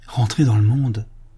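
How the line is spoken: Exclaimed, priest. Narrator (French): s'écria l'abbé

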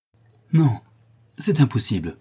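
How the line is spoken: Exclaimed, leaning close. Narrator (French): s'écria le prince en se courbant vers le Chourineur

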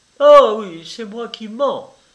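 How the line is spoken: Angry exclamation. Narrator (French): s'écria Sylvie en colère

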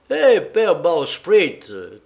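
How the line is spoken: Jailer shouting. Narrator (French): cria mon geôlier

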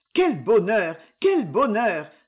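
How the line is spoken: Joyful children's cry. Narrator (French): s'écrièrent les 3 enfants en perdant toute leur gravité

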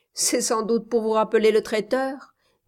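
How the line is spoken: Sneering. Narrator (French): dit Trent en ricanant

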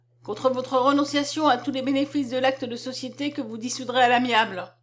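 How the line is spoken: Plain. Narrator (French): dit le magistrat

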